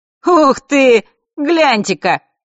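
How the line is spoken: Joyful yell. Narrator (Russian): радостно вопит кто-то из компании придурков

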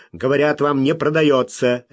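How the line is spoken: Sharp reply. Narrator (Russian): резко ответил Смок

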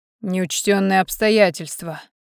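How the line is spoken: Dry snort. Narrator (Russian): хмыкнул Ледяной в своей обычной манере

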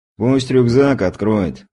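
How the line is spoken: Lazy, casual advice. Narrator (Russian): лениво посоветовал крепыш

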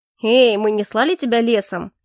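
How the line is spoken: Cheerful reply. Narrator (Russian): весело отозвался Дельсон

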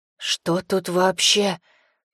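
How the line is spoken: Hoarse croak. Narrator (Russian): прохрипел компаньон

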